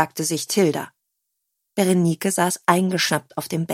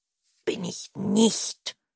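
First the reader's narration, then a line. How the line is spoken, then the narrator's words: Murmur. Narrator (German): murmelte Berenike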